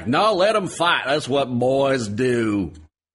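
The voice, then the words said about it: Imitated southern accent, Hugo Weaving. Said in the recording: “That's approximately Hugo Weaving's southern accent”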